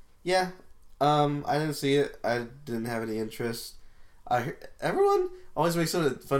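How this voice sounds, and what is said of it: Usual voice. Nothing is said of it.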